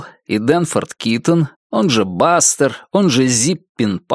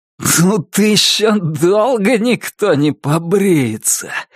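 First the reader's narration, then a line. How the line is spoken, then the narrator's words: Breathless exhale. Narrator (Russian): выдохнул Туз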